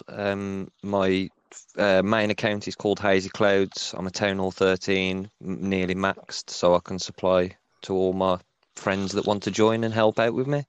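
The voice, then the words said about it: Birmingham-area English accent. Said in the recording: “where's your accent from? ... I'm from the United Kingdom, a small town called Birmingham ... if you've seen the show Peaky Blinders, that's where my accent is most popular from. But I'm from a small town called Wolverhampton.”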